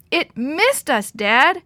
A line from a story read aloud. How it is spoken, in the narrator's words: shouted in elation